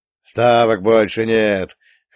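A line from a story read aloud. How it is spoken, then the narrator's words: Bald bearded man guffawing. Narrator (Russian): хохотнул лысый бородач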